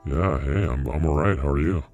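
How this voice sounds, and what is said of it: Electronically altered voice. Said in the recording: “Nice voice changer, dude.”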